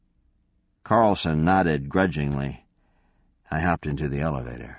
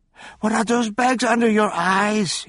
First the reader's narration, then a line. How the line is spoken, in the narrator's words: He cried